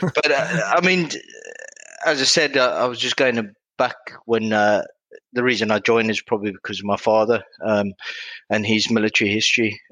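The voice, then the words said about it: West Country Somerset accent. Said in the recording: “hybrid West Country South African accent ... the Somerset one”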